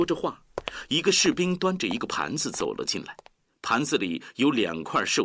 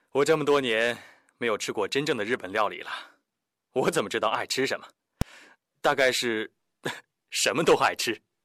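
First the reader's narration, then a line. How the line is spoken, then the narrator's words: Faint smile, calm. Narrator (Chinese): 廖飞淡淡的一笑，回答道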